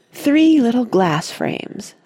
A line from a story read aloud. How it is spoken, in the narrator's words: said Douglas